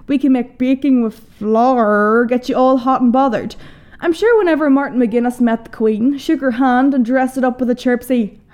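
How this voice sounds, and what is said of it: Merry, dulcet regional accent. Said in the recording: “my accent. The land from where I'm from hails a merry yet dulcet tone. Recently voted the sexiest accent in the world.”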